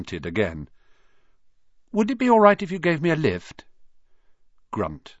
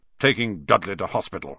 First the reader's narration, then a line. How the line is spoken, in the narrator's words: growled Uncle Vernon